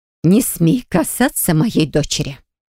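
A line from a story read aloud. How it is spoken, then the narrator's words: Hateful hiss, dragoness. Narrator (Russian): Драконица с ненавистью прошипела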